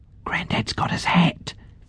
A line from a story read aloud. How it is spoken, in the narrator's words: Fiona whispered